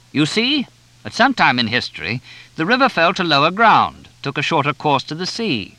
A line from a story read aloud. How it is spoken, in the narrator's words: Carr shouted to everyone